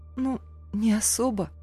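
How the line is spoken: Quiet, sighing. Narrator (Russian): отозвалась тихо вздохнула

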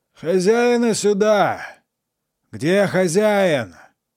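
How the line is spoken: Sergeant shouting. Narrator (Russian): кричал сержант

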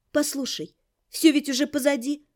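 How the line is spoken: Soft, gentle. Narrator (Russian): мягко сказала я

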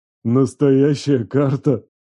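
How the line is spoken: Loud hoarse demon laughter. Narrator (Russian): Демон засмеялся громче, зычно, с хрипами

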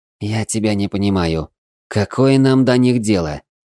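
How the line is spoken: Angry nervous whisper. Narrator (Russian): сердито зашептал Хило, нервно

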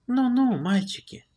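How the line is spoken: Gentle, singsong. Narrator (Russian): Ласково пропела нам Лара

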